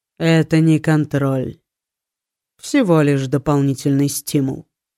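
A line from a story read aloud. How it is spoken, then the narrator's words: Dry, serious tone. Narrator (Russian): проговорил он сухим, серьезным тоном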